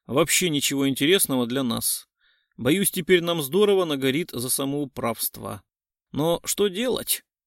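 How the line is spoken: Feigned sigh. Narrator (Russian): притворно вздохнул он

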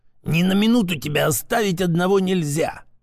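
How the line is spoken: Old man's angry hiss. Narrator (Russian): зло шипел дед

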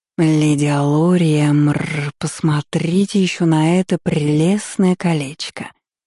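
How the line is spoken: Purring. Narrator (Russian): мурлыкнул Тиэль

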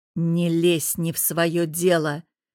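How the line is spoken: Growled. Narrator (Russian): прорычал я

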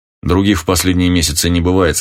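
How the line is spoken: Plain. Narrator (Russian): сказал Охман

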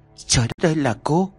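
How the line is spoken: Stunned stammering. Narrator (Vietnamese): Nhã Kiều trợn mắt ấp úng

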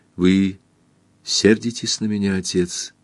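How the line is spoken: Quiet question. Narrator (Russian): тихо спросила

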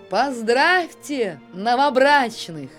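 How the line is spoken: Cheerful shout. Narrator (Russian): весело крикнула

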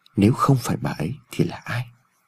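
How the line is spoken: Inaudible mutter. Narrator (Vietnamese): Ông Phúc lẩm bẩm trong miệng mà không người nào nghe thấy

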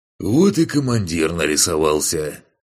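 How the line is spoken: Snorting. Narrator (Russian): хмыкнул

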